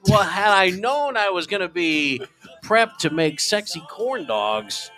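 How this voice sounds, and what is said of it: Usual voice. Nothing is said of it.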